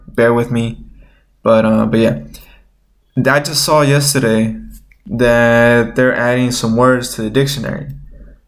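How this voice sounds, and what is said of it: Nasal, stuffy-nosed voice. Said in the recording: “I sound a little nasally ... my nose is a little stuffy ... my voice is sounding even more probably nasally than usual”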